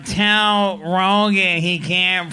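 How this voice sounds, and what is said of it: Imitates another person's voice. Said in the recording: “Mitzi calls me and she's like ... I'm doing a voice”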